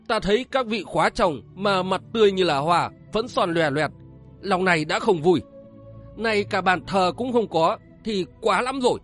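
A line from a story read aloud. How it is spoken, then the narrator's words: Roaring. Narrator (Vietnamese): Tiểu Ngưu gầm lên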